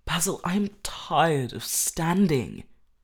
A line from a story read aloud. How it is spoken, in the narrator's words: cried Dorian Gray suddenly